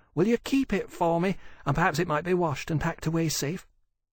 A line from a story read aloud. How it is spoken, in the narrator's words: Elsie said, and said urgently to Holland